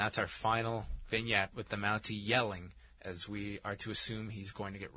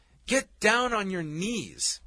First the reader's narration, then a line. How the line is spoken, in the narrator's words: Piper yells